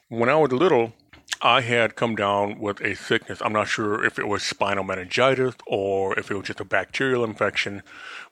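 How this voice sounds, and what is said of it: Distinctly different-sounding speech. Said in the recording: “I sound so different, it's because I have a hearing disability ... a hearing loss of 60%, but also a frequency loss”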